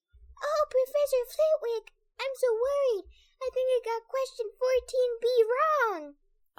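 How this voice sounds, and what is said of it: High-pitched mocking put-on voice. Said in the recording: “He put on a high voice.”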